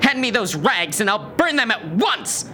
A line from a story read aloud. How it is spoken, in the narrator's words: she screamed at him